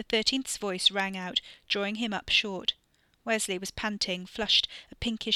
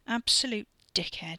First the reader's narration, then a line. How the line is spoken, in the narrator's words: muttered thickly into his cupped palm